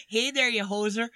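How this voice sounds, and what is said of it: Put-on Canadian accent. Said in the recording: “try a Canadian accent”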